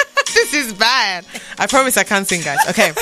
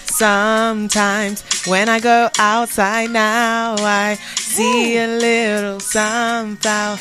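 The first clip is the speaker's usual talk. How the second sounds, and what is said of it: Singing in an American accent. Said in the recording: “Don't know why I'm singing in an American accent, but it works.”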